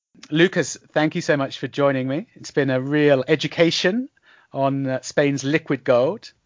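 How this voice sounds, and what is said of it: British accent. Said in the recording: “you've got a special British accent, of course”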